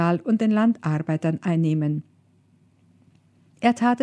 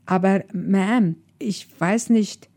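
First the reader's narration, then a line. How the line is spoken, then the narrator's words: Meek, dejected stammer. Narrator (German): stammelte der für den Speisesaal Verantwortliche kleinlaut und bedrückt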